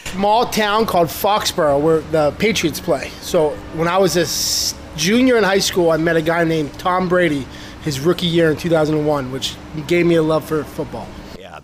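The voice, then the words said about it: Massachusetts accent. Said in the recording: “I couldn't tell by that accent ... I'm originally from Massachusetts.”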